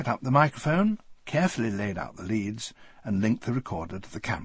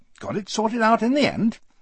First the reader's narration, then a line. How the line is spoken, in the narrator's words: he said brightly